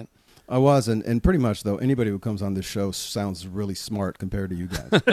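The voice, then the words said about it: American accent. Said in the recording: “he sounds like he could have walked into our studio from Detroit? ... the American accent”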